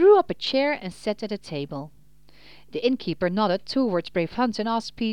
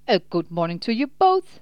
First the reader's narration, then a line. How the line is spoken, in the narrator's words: Peter answered cheerfully